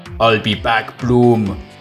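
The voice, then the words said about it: Arnold Schwarzenegger impression. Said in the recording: “your Arnie impression”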